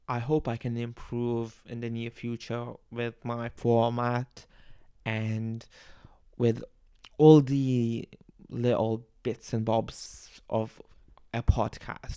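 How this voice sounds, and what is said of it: Bangladeshi accent with Australian tinge. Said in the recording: “accent might be a bit Australian, but I am from Bangladesh ... my accent might be a bit off here and there”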